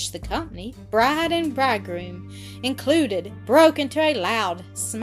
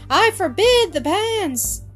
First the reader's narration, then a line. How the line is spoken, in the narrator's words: She gave a shriek and cried out